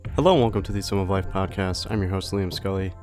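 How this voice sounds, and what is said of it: Congested, stuffy-nosed voice. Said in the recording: “sorry if I sound a little congested in this podcast. I was pretty sick when we were recording this, and I'm still actually a little congested now. You could probably hear it in my voice.”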